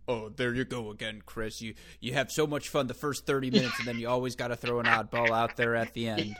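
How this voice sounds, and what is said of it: Imitates another person's voice, East Coast accent. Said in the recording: “I almost did an East Coast accent. Hold on, I'm trying to assume my Ty Tucker impersonation.”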